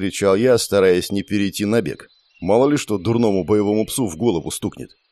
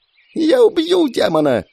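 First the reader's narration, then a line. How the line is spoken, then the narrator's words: Near-shrieking noblewoman. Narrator (Russian): Чуть ли не взвизгнула графиня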